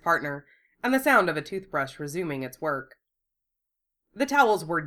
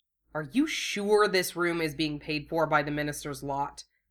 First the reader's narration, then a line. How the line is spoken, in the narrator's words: he grumbled